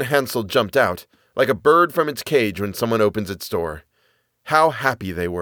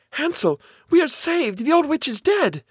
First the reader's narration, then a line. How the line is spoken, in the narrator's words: Gretel cried